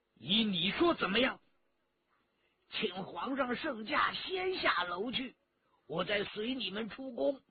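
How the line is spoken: Angry. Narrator (Chinese): 陈家洛大怒

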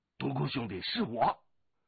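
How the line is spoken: Familiar calling voice. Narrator (Chinese): 龙八的声音

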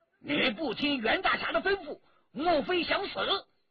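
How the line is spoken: Enraged. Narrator (Chinese): 陈正德大怒

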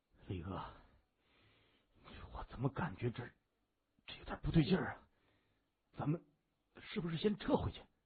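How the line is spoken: Low, summoning courage. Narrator (Chinese): 一名小头目深吸口气，壮着胆子，他低声说

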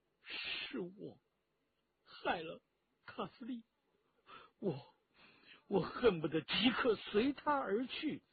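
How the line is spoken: Grieving, bitter, choked. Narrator (Chinese): 又是伤心又是愤恨，陈家洛哽咽着

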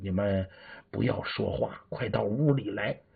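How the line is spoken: Whispering. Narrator (Chinese): 对他们小声说

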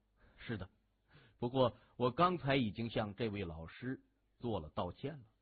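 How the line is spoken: Slight smile, slow and unhurried. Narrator (Chinese): 谢文东微微一笑，慢条斯理的说

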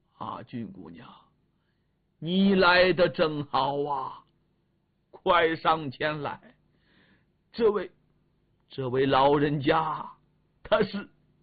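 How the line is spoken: Abrupt stop mid-sentence. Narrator (Chinese): 狄仁杰说到这里，猛然间顿住了

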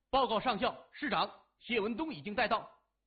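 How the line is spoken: Loud military report. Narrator (Chinese): 年轻人……大声说

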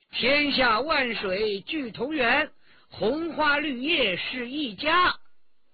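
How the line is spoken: Loud chanting. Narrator (Chinese): 新燕……高声吟道

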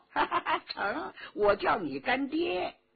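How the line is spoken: Laughing. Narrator (Chinese): 佟兆和笑道

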